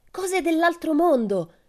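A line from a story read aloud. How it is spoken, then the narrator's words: Shouting from above. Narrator (Italian): gridò di lassù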